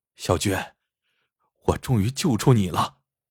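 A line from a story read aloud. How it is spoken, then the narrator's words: Choked sobbing. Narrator (Chinese): 石头痛哭起来，好半天，他才哽咽着说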